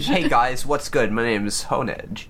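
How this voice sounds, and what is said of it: Deep character voice. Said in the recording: “I love the idea that it has a deep voice”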